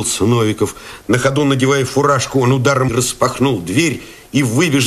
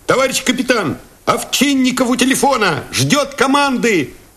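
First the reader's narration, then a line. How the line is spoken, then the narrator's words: Shout. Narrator (Russian): крикнул кто-то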